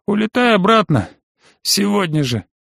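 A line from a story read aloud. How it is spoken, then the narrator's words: Breathed out. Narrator (Russian): выдохнул сенсей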